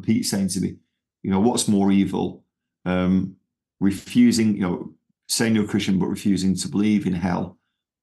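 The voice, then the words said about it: Manchester English accent. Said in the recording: “you're clearly Manchester origins ... hopefully I've still got my Manchester accent”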